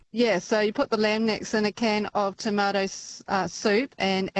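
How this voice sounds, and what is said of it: New Zealand accent. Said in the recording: “Is that a little Kiwi accent I notice? ... Hard to shake that little beautiful New Zealand lilt.”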